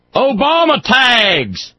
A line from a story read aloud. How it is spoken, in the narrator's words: an audience member hollers out